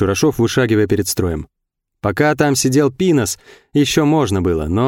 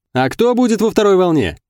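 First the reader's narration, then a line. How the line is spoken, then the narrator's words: Shout from crowd. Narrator (Russian): выкрикнул кто-то из толпы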